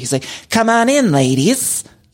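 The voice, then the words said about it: Imitates another person's voice. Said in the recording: “That's my impression of Asher saying, come on in, ladies.”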